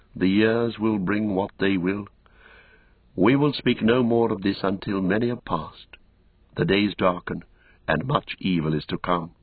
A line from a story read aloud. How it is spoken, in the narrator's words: He sighed, gravely, he said again